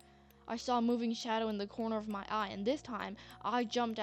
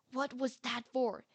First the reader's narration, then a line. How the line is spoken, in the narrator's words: whispered yelled